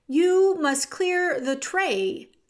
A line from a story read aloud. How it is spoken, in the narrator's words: shouted Cook